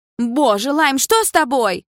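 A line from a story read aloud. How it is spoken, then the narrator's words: Exclaiming. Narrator (Russian): воскликнула Карина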